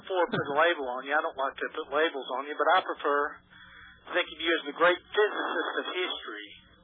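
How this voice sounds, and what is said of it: Southern US accent. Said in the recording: “I knew you were from somewhere in the southern part of the state. ... my accent comes through ... They only do that down south.”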